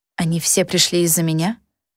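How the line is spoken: Incredulous whisper. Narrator (Russian): прошептала я недоверчиво

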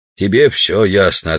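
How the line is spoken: Plain. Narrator (Russian): ответил Грубин

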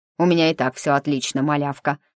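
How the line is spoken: Snapped, toy. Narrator (Russian): огрызнулась игрушка

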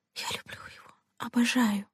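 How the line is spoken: Whisper. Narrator (Russian): прошептала она

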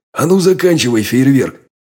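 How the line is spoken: Barked command. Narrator (Russian): рявкнул я

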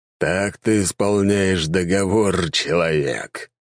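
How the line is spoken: Growled. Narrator (Russian): прорычал Эмердин

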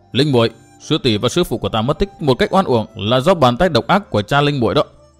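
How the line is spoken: Shout. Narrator (Vietnamese): quát

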